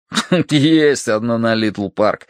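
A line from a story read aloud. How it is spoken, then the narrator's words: After laughing. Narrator (Russian): отсмеявшись, сказал Долговязый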